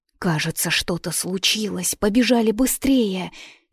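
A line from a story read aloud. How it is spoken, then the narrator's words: Frightened whisper, young girl. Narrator (Russian): испуганно зашептала Нюра, круглолицая, светловолосая девчушка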